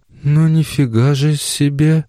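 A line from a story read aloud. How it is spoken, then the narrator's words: Breathless exhale. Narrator (Russian): она лишь выдохнула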